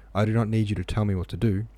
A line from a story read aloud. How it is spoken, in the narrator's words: exclaimed Rostopchin angrily